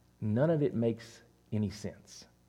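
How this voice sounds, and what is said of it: Whispering. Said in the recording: “so I'm going to whisper it”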